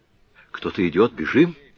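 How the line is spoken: Frightened exclamation. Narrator (Russian): воскликнула Энрика голосом, исполненным страха

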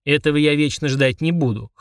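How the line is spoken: Snort. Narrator (Russian): хмыкнул Фрундорог

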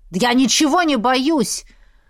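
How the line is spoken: Defiant growl. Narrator (Russian): рыкнул

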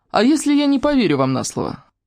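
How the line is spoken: Loud laughter. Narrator (Russian): Саня расхохоталась

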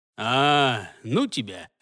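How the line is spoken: Lazy dismissal. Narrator (Russian): лениво отмахнулся от него следопыт

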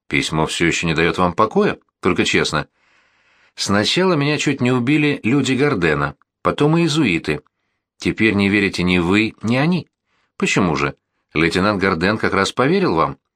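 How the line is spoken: Calm objection. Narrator (Russian): спокойно возразил сержант

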